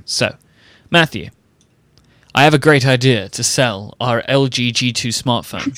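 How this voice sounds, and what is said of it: Cringeworthy American businessman voice. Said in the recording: “Is that your business voice? ... your business voice is. A really cringeworthy American person.”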